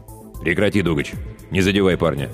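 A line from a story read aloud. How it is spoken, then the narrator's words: Curt, clipped command. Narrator (Russian): отрывисто бросил мастер Руго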